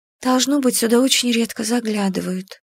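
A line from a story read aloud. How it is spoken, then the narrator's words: Barely audible rasp. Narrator (Russian): прохрипела я едва слышно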